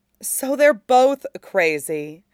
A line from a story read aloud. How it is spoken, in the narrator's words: Katara said firmly